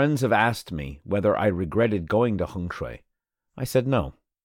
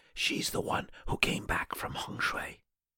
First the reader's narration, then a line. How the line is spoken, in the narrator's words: people whispering